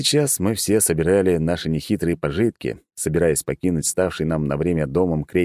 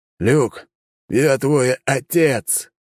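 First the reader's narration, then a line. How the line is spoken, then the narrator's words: Hoarse voice. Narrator (Russian): хриплым голосом произнес Алекс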